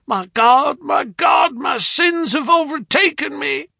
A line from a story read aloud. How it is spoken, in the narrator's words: he shrieked